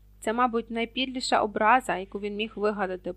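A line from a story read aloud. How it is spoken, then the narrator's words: Groan. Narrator (Ukrainian): простогнав Рон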